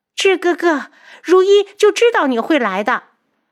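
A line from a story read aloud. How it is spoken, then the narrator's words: Eager shout. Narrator (Chinese): 素如立刻的大叫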